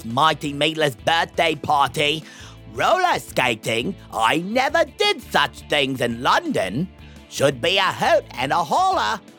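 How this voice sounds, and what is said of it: Exaggerated put-on accent. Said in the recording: “are you really going to talk in that ridiculous accent for the rest of this episode?”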